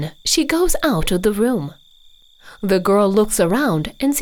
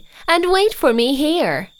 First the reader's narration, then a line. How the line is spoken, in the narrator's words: says Baba Yaga loudly